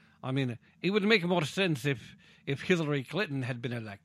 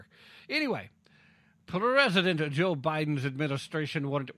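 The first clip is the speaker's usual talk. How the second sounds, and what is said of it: Put-on Russian accent. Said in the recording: “Why am I doing the Russian accent for President Biden?”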